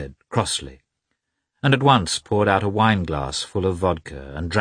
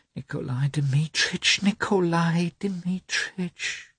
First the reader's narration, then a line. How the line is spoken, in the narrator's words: whispered Maria Nikolaevna